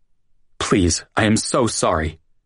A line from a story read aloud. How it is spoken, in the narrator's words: Ross stammered on the phone, tears streaming down his face